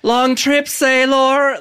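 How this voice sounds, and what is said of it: Weird put-on accent, bad acting. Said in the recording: “bad acting plus weird accent”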